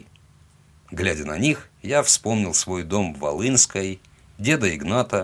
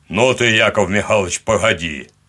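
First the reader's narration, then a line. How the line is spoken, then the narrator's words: Booming bass. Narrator (Russian): ответили ему зычным басом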